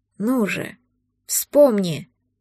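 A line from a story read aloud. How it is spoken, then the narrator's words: Muffled growl. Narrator (Russian): Глухое рычание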